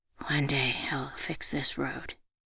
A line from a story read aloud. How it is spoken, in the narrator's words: Under my breath, I said